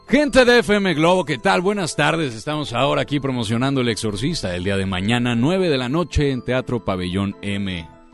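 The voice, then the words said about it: Radio announcer voice. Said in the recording (Spanish): “voz de locutor ... me gusta para la locución”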